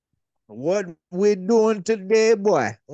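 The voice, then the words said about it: Put-on heavy Creole accent. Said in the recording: “you should do an accent ... Like a super Creole.”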